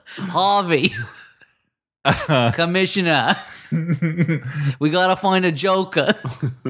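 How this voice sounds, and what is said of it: Put-on Boston accent, Batman voice. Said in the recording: “Beantown Batman ... Stupid accent.”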